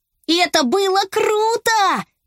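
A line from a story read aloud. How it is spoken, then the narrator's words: Shouting. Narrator (Russian): закричал Беня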